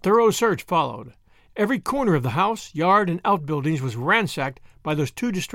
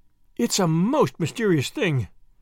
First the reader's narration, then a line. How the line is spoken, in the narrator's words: groaned Marilla